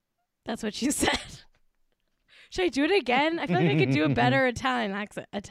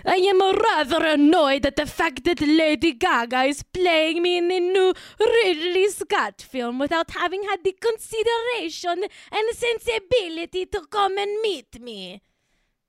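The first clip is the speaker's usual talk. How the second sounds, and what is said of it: Put-on bitchy Italian woman accent. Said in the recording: “I've got to get the accent right... I'm like a bitchy Italian woman who's ungrateful and rude”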